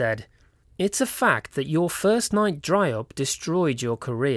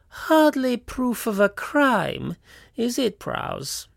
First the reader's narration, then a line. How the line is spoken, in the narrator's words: purred